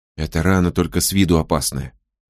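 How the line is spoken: Whisper. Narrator (Russian): прошептал Мо

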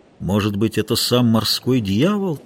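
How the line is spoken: Quiet voice. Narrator (Russian): тихо проговорил матрос

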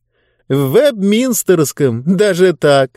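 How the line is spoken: Laughing. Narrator (Russian): продолжал смеяться Диба

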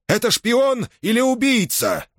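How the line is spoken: Shouted. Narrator (Russian): выкрикнул Корбула

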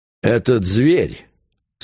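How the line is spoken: Contemptuous tone. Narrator (Russian): сказал барон презрительным тоном

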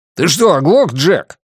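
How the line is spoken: Barked shout. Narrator (Russian): рявкнул Джонни

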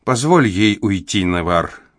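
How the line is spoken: Gentle motherly advice. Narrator (Russian): мягко посоветовала мать

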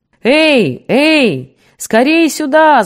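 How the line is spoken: Distant yell from rooftop. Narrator (Russian): заорал с крыши хана Саша Брюн, дозорный

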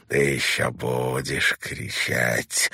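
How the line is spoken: Hissing with deadly hatred. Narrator (Russian): прошипел Барлоу, скривив губы в смертельной ненависти

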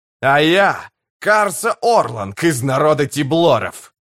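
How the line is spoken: Roaring. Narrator (Russian): проревел Урит

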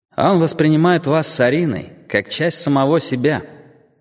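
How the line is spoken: Sighing. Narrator (Russian): Ким вздохнул

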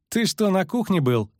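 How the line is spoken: Laughing. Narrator (Russian): засмеялся Лютик

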